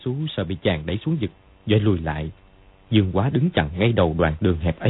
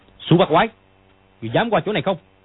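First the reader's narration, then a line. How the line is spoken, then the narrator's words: Shout. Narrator (Vietnamese): Dương Quá quát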